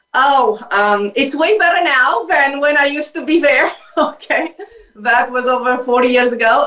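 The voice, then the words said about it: Romanian accent. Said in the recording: “this accent is Romanian.”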